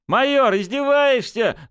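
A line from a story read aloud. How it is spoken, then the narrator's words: Angry shout. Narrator (Russian): злобно выкрикнул Журавлев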